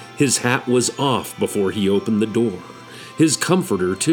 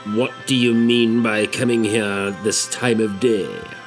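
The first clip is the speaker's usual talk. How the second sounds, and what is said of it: Gruff growling old man voice. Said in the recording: “growled Scrooge in his accustomed voice, as near as he could feign it”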